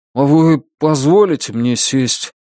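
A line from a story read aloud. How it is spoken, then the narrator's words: Unsure question. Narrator (Russian): неуверенно спросил Брезач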